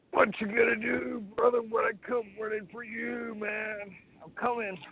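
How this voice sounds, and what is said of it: Imitates another person's voice. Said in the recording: “my Malcolm Wildman best impression”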